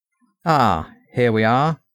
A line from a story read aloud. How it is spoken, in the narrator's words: exclaimed my uncle